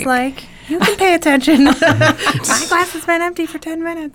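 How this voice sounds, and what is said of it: Imitates another person's voice. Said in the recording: “That was a good impersonation”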